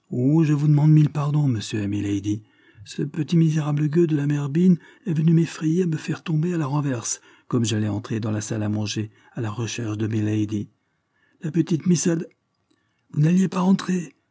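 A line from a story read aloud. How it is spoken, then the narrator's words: Furious shout. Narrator (French): cria Chad furibond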